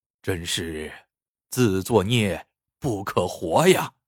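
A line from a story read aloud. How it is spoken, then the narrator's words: Heavy sigh. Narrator (Chinese): 他 长叹一声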